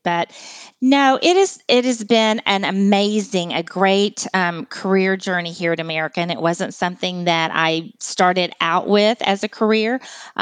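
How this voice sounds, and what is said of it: Texas accent. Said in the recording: “I am a Texas girl ... you will definitely hear my Texas accent too”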